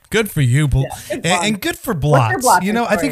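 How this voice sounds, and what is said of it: Usual voice. Nothing is said of it.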